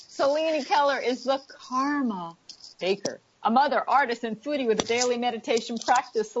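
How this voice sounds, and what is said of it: New York accent. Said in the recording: “You're hearing my New York accent come out. No matter how much I try”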